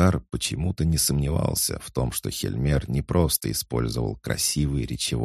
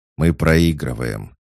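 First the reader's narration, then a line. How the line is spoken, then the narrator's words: Sigh. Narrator (Russian): вздохнул орк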